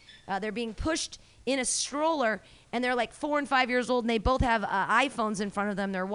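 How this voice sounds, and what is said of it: Usual voice. Nothing is said of it.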